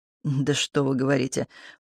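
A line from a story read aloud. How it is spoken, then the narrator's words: Muttered under breath. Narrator (Russian): под нос себе пробормотал Дмитрий Иванович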